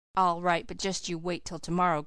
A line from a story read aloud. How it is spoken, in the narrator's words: growled Dan, subsiding reluctantly into silence